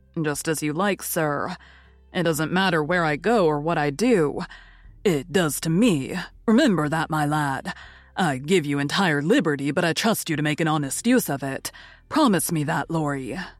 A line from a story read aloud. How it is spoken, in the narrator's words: He sighed and then said in a spiritless tone